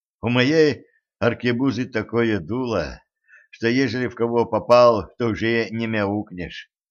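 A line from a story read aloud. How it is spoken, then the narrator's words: Sighing. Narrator (Russian): вздохнул секретарь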